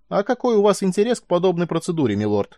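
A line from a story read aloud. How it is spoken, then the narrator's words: Cheerful rapid chatter. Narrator (Russian): весело затараторил он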